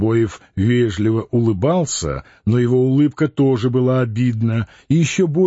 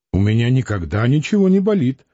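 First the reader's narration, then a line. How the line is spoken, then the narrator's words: Indignant, near tears. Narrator (Russian): возмущенно сказал Клим, боясь, что сейчас заплачет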